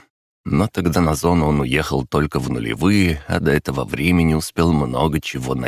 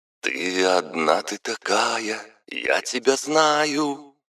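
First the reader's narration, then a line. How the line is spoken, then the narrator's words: Singing through hoarse speaker. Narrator (Russian): распевал Маликов из хриплой колонки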